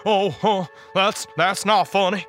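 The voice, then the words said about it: Groaning southern accent. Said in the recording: “groaned in a southern accent”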